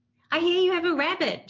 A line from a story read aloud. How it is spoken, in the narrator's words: shouted